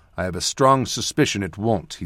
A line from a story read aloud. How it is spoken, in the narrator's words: said flatly